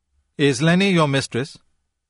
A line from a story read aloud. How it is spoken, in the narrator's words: Kay asked curtly